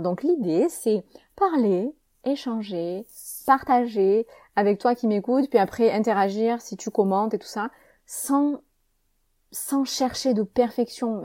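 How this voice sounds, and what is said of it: Southern French accent from Avignon. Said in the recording (French): “petit point accent. Je suis née à Avignon, en France ... cet accent, il me suit partout ... parfois ça s'entend pas, parfois ça s'entend ... selon euh, les, les, sonorités. Après, ça fait un peu de soleil chez toi”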